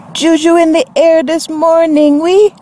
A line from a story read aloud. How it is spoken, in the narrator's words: she shouted over the brassy music